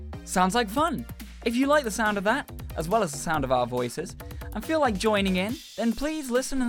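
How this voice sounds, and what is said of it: Usual voice. Nothing is said of it.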